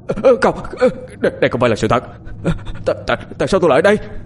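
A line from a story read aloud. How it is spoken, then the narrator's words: Shouted. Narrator (Vietnamese): Hét xong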